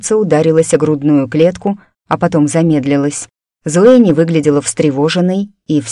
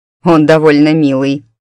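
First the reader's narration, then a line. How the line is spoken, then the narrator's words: Amused snort. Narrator (Russian): хмыкнул Дамиан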